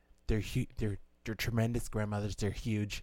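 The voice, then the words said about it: Donald Trump impression. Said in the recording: “doing an impersonation of him”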